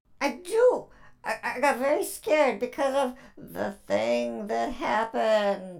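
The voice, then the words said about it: Character voice sounding scared. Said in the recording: “You sound a little scared.”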